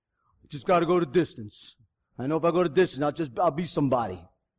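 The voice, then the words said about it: Imitates a movie character's voice. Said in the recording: “my best Rocky impression”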